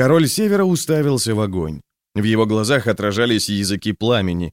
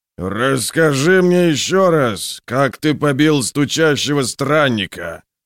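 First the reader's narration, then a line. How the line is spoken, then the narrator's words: Roaring. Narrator (Russian): проревел Скейл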